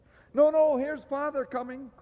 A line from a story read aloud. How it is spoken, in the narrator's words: cried the two young Cratchits